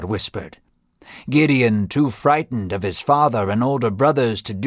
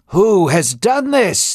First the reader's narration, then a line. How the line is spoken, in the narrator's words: shouted